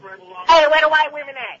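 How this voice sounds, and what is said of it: Put-on comic voice. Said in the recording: “putting on a voice”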